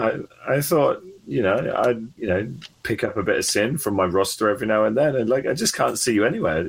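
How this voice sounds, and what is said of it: Usual voice. Nothing is said of it.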